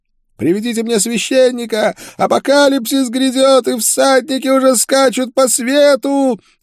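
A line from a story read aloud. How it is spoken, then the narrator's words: Madman howling. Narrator (Russian): вопил умалишенный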